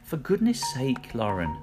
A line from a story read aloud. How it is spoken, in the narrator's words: Mum sighed